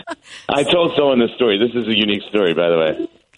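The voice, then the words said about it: Voice sounds off, unwell. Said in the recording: “I'm recovering here, so excuse the voice.”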